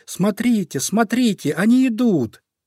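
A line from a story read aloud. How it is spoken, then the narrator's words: Heavy sigh, then joyful shout. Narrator (Russian): Зайка Петя тяжело вздохнул, но тут же радостно закричал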